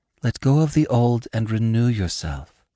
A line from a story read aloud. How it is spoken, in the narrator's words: his sister's voice whispered to him